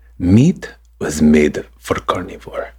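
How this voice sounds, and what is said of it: Reading in a put-on accent. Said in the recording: “Do you need an accent? ... I'm so glad you said it with an accent.”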